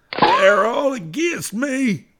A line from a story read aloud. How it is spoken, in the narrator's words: he cried out